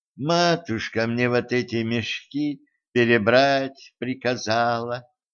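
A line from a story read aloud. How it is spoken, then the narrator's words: Sighing. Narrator (Russian): вздохнула Золушка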